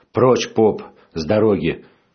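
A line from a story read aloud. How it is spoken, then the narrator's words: Furious shout. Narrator (Russian): Лицо справедливого перекосилось от злости, и он закричал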